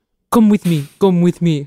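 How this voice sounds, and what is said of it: Lindsay Lohan's fake Syrian accent. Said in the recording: “Lindsay Lohan ... Let me put on a fake Syrian accent. ... Her voice from that haunts me.”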